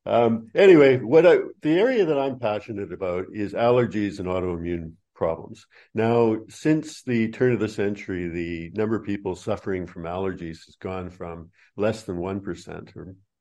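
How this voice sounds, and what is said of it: Canadian accent with Australian twist. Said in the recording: “Australian twist to my accent ... you tend to keep it ... A Canadian.”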